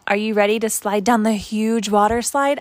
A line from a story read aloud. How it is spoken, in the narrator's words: asked Rachel